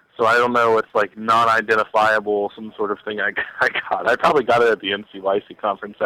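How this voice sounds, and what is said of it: Sick, cold-affected voice. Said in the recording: “You can probably hear it in my voice. I'm having some sort of cross sickness with like flu-like symptoms and cold-like symptoms.”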